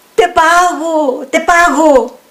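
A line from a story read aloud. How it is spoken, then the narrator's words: Man shouting. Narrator (Spanish): gritó el hombre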